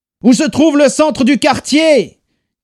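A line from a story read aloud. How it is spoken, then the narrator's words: Shouting over noise. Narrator (French): cria Adrian pour couvrir le vacarme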